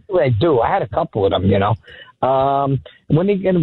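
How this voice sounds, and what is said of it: Usual voice. Nothing is said of it.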